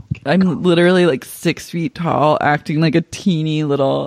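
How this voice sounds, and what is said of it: Usual voice. Nothing is said of it.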